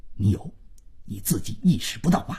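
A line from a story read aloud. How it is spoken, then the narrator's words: Hushed low voice. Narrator (Chinese): 万征 压低了嗓子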